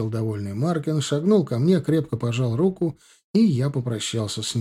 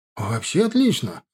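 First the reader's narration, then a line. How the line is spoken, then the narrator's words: Joyful exclamation. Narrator (Russian): не скрывая радости, воскликнул он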